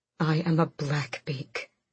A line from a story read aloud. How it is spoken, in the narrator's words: Manon rasped, blood choking her words